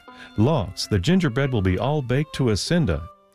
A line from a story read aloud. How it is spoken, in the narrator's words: exclaiming